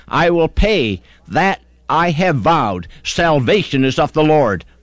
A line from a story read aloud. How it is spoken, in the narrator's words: he cried